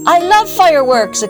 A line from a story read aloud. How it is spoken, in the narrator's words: exclaimed Sigourney